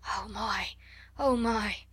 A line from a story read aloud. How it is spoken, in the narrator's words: her say hoarsely in wild delight